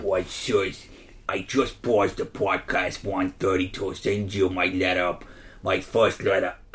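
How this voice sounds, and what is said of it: Put-on New Jersey accent, drifting Russian. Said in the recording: “You do New Jersey accent. ... Really have to focus to understand. ... It's getting a bit Russian there.”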